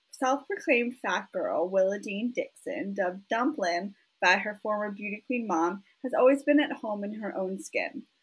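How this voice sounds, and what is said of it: Fake Southern US accent. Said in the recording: “slip into a fake southern accent ... read this with some sort of southern accent, because it does take place in Texas”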